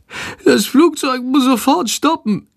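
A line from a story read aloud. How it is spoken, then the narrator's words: Groaning. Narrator (German): stöhnt Schandor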